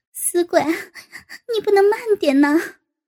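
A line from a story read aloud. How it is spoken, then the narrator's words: Laughing scold. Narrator (Chinese): 高杰在下面笑骂道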